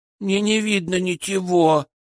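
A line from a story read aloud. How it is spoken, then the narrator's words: Child whimpering. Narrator (Russian): захныкал ребенок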